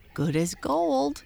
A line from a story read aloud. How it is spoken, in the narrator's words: cried Bird admiringly